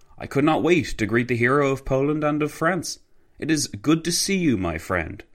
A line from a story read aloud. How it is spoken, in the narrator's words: Piłsudski exclaimed